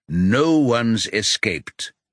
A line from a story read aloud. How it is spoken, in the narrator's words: Neil says